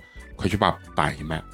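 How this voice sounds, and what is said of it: Quiet, hushed voice. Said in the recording (Chinese): “很小声跟我说”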